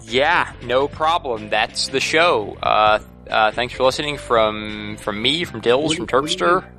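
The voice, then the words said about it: Weak Scott Johnson outro impression. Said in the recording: “doing a Scott Johnson impression? ... It's not a good job. It wasn't very good. ... Not like his voice. I just like his outros.”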